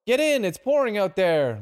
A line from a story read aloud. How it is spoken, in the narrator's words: Larry shouted